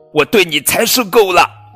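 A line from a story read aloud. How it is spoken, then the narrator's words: Loud shout. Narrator (Chinese): 比利大声喊道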